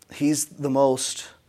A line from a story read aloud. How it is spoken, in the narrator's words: he said slowly